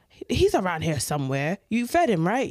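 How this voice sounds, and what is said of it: Put-on accent voicing her dad. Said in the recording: “That's not my dad's accent, by the way.”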